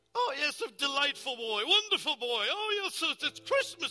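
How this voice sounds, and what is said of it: Old miser character voice. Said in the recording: “Middle name and a Scrooge impersonation.”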